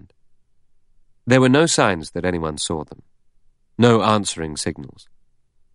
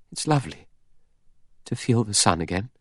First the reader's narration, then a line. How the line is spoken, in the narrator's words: murmuring